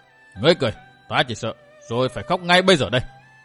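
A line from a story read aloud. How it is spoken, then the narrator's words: Irritated harsh clipped voice. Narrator (Vietnamese): Độc Cô Thanh Tùng bực tức gằn giọng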